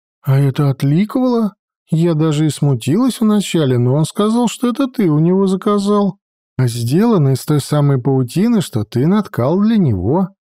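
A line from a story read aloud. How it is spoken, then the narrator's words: Joyful reply. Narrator (Russian): радостно ответила Адельхейд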